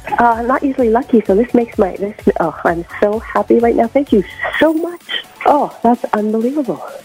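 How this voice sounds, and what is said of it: Quiet, whispery voice. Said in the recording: “why do you sound like you're whispering?”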